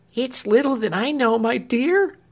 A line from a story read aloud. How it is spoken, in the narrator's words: cried Clemency